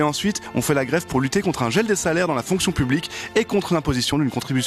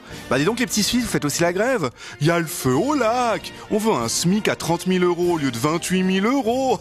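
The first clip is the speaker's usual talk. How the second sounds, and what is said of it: Exaggerated put-on regional accent. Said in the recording (French): “cet accent n'existe pas”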